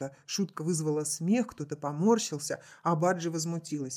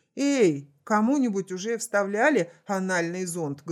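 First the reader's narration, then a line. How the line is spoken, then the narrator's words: Loud inquiry. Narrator (Russian): громко осведомился Саймон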